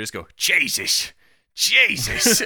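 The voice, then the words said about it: Impression of Balchek from The Wire. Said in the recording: “sounded like a specific character from The Wire, but more broadly, an old Polish white guy who lives in Maryland ... the shithead lieutenant ... Balchek ... do the voice”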